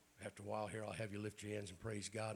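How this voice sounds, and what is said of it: Raspy voice with throat clearing. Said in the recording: “my raspy voice and clearing my throat ... Lung issues, sinus issues.”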